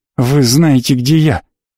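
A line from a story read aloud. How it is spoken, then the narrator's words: Angry. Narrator (Russian): сердито сказала Ци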